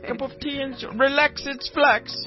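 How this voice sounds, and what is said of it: Bad attempt at British accent. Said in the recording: “No, I'm sorry, that's not a British accent... No, you sound like you're from Sweden... The worst fucking British accent I've ever heard in my life.”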